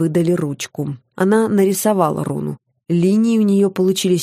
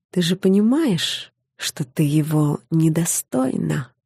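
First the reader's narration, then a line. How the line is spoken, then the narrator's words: Quiet. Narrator (Russian): тихо сказала она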